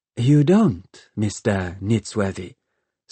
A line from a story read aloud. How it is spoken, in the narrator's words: said the aviatrix